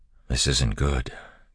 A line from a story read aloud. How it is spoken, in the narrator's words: Kelsier said quietly